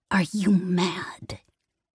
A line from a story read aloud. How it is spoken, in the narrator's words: Gavron hissed